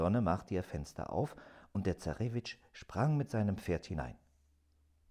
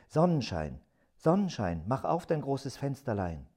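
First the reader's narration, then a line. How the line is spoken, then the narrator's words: Called out. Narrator (German): rief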